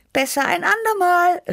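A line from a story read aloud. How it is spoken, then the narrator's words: Calling out. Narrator (German): rief ich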